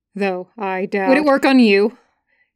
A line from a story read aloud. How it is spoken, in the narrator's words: He blurts out, unable to stop himself